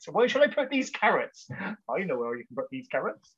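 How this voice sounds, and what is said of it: West Country accent. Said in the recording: “There's the accent coming out for you. ... a proper West Country accent”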